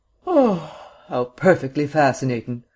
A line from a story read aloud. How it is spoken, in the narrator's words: exclaimed Vance with a yawn